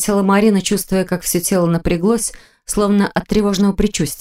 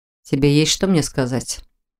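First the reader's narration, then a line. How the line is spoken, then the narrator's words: Sudden muffled question. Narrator (Russian): Внезапно глухо спросил Непогодин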